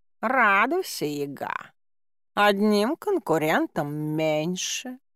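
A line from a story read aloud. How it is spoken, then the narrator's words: Purring cat. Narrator (Russian): промурлыкал кот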